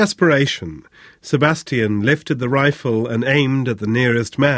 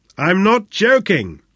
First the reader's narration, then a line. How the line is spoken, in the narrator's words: yelled again